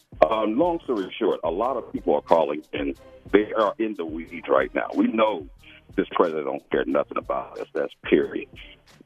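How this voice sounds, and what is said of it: Smooth radio-announcer style voice. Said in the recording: “Got a radio voice”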